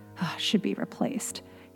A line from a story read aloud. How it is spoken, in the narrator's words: he muttered